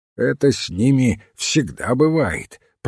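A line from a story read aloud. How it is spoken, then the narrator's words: Muttered. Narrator (Russian): пробурчал мистер Мандевиль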